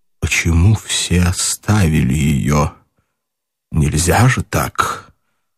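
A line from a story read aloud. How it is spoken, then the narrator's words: Strangled voice. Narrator (Russian): Наконец Николай Иванович проговорил сдавленным голосом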